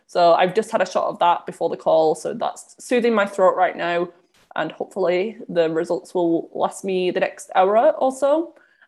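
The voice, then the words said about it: Nasal, congested voice. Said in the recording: “I'm sure you can tell my voice is still a little bit nasally at the moment”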